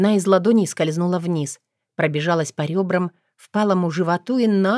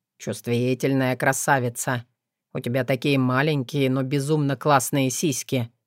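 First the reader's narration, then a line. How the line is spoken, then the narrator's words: Husky, strained voice. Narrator (Russian): признался севшим голосом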